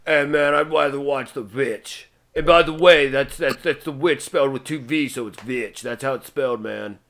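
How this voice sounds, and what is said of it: Imitates another person's voice. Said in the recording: “That is my spot on impression of Rob.”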